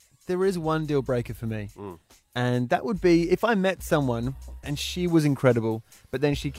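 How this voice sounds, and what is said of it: Usual voice. Nothing is said of it.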